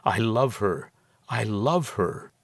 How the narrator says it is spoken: murmured to it

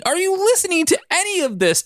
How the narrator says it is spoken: Todd screamed

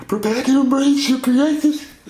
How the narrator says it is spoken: he gasped

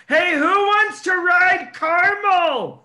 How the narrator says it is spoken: Seth turns around and just yells

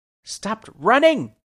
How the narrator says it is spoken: called out

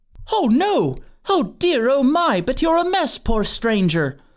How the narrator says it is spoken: cried

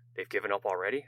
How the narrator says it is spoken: asked Galen

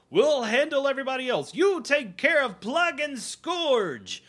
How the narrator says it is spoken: They yell

